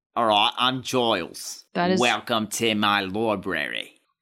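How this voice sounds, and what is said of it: Put-on posh British accent. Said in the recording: “I think my British accent is perfect ... I was trying to do, like, posh.”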